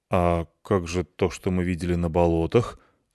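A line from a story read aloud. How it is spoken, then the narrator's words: Bewildered question. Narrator (Russian): спросил я растерянно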